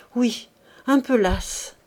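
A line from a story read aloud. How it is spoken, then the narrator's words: Breathless, strained voice. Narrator (French): répondit-elle d'une voix oppressée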